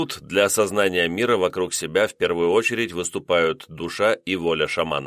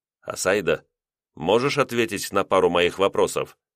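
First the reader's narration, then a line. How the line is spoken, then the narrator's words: Quiet request. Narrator (Russian): тихо попросил я, чтобы не привлекать внимание охраны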